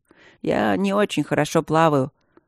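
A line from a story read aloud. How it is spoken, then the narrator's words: Grumbling. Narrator (Russian): проворчал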